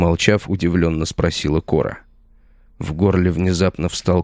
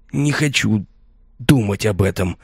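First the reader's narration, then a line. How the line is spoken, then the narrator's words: Strained, forced out. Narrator (Russian): наконец выдавил я, будто пробивая словами стену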